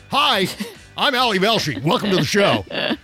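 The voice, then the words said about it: Loud shouting impression, monotone. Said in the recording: “I've got a very loud voice, and I shout everything... That's my Ali Velshi for you... my impression... I talk loudly... Everything has the same tone of voice”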